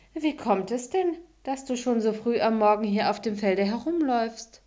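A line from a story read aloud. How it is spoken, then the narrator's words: Mocking. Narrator (German): setzte eine höhnische Miene auf und sagte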